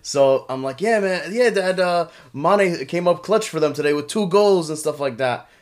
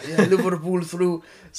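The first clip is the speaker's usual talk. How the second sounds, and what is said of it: Imitation of father's accent. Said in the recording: “that is actually, guys, my dad's accent.”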